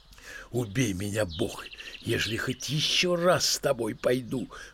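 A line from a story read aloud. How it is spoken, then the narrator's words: Ashamed mumbling. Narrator (Russian): Бормочет она, вся красная от стыда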